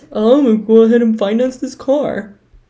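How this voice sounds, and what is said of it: Silly put-on voice. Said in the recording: “That voice... This is my silly voice.”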